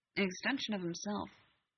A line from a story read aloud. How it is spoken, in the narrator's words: Sam mumbled, just low enough for Alec to hear